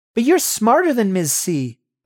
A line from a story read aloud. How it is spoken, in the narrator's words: I blurt